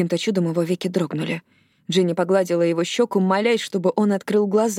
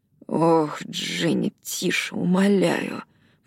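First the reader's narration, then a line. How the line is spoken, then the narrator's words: Mumble. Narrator (Russian): пробормотал он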